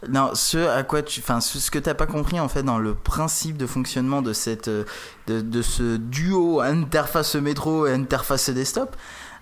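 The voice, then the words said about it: Put-on accent. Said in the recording (French): “c'est quoi cet accent?”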